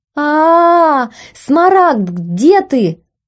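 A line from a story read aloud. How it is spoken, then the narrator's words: Loud wailing aloud. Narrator (Russian): вопила в голос, забыв о ментальной связи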